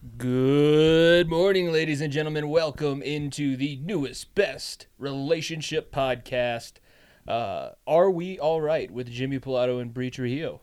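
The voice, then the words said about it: Announcer voice. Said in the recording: “You got your announcer voice”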